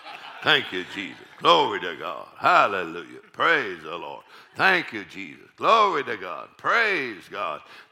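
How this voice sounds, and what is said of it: Deep voice imitating another person. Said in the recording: “I kind of have a voice, kind of like my mama, a deep voice. So my mama, she'd go”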